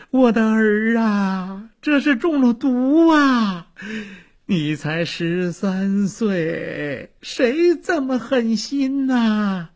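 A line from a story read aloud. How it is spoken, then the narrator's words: Wailing and sobbing. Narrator (Chinese): 王妃连哭带嚎起来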